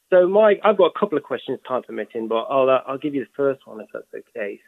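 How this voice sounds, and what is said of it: Speaks with a noticeable regional accent. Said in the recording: “My accent probably threw it off.”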